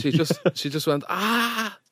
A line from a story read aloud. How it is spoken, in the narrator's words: She screamed